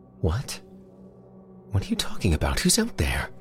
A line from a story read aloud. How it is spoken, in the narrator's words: Elsie still yammering out a barrage of unanswerable questions